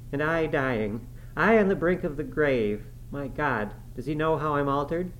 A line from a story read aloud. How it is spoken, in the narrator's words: cried, confounded